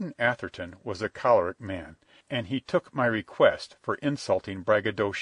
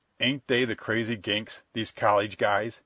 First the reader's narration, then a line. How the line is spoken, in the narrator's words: Captain Jamie snorted